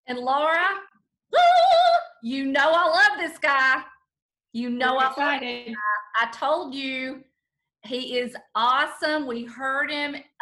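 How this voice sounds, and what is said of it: Southern American accent. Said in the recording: “they happen to have Southern accents too”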